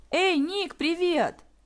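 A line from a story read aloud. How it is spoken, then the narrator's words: Joyful shout. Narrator (Russian): радостно выкрикнула Василиса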